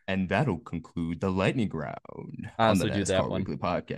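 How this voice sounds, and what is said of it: Smooth announcer-style radio voice. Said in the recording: “radio voice ... That is radio voice ... Sounds like you're reading an audiobook”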